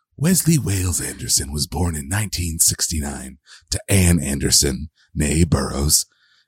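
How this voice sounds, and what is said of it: Imitated film narrator voice. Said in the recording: “my best Alec Baldwin narrator voice ... I can't do it ... Not bad ... I can't sustain it”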